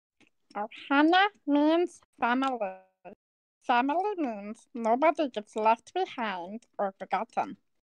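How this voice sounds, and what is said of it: High-pitched gravelly Stitch impression. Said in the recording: “I can do an almost perfect impression of Stitch ... I have a naturally high-pitched voice, and I just gather saliva in the back of my throat.”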